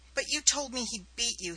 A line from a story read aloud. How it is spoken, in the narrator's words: he cried